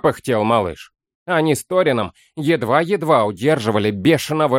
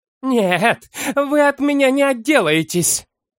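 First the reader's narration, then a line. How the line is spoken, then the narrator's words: Reckless shriek. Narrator (Russian): Взвизгнула Тубала, забыв всякую осторожность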